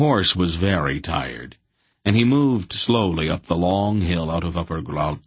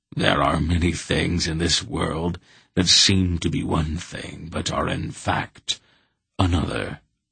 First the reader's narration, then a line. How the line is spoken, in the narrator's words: the Wolf said somewhat grimly